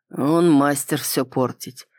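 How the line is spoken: Gloomy agreement. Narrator (Russian): мрачно согласился Кроу

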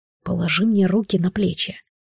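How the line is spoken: Soft. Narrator (Russian): мягко сказал Монтроз

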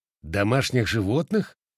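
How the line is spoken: Feigned indifferent snort. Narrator (Russian): сделанным безразличием хмыкнул я

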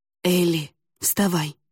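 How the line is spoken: Whisper. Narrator (Russian): прошептал он

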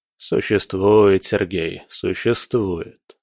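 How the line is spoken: Said grimly. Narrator (Russian): мрачно произнес Иванов

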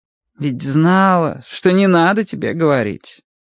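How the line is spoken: Sighing. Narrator (Russian): вздохнула Мэри

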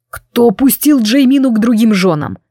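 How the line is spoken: Roaring. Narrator (Russian): взревел он

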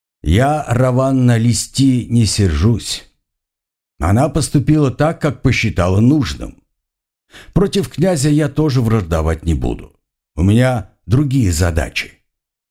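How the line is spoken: Very calm, prompt. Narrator (Russian): ответил Алиш, не раздумывая и очень спокойно

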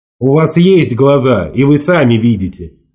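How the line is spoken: Almost rude reply. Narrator (Russian): ответил я почти грубо

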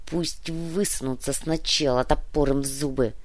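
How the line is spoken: Uncertain mutter. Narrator (Russian): неуверенно пробормотал Напильник

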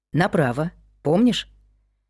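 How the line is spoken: Soft. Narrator (Russian): мягко сказал Адам

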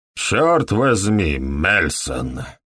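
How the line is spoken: Grumbling. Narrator (Russian): проворчал доктор Фелл

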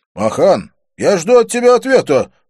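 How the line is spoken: Barked. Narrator (Russian): рявкнул Доминик

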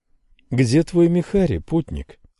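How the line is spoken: Tender address. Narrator (Russian): ласково обратилась она

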